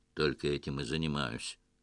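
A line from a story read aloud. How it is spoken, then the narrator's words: Dry grumble. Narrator (Russian): сухо буркнул эмир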